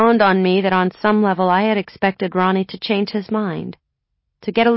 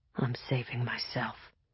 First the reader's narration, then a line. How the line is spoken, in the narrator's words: he said very quietly